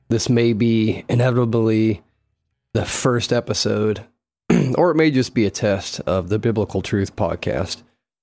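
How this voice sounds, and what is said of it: Hoarse, weak voice. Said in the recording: “my voice is gone”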